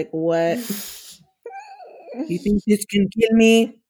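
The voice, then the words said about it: Poor put-on Russian accent. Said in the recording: “that your imitation of a Russian? ... it wasn't good, but still, I tried to imitate a Russian”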